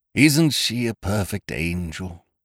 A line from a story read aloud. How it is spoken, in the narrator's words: He breathed softly